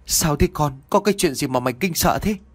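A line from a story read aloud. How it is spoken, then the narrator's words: Worried question. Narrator (Vietnamese): ông liền lo lắng hỏi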